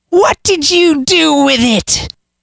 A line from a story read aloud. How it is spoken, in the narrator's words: she screeched